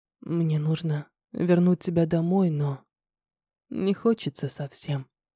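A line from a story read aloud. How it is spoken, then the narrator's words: Barely audible, breathy. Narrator (Russian): проговорил он еле слышно с придыханием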